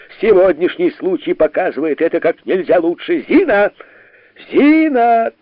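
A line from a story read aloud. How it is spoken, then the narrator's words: Shouting. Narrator (Russian): кричал Барменталь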